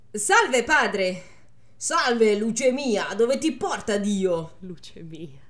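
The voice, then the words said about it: Put-on exaggerated Milanese accent. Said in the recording (Italian): “l'accento da imbruttito ... lui ce l'ha fortissimo l'accento ... Milano, uè”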